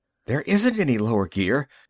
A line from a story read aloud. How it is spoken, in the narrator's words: Magnan gasped